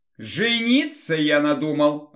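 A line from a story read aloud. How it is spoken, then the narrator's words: King's joyful announcement. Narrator (Russian): радостно сообщил король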